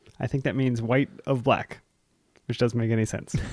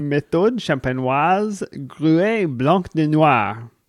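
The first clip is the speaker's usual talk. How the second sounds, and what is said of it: Put-on French accent. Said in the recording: “How was my French accent? Was that pretty good? ... It was pretty spot on.”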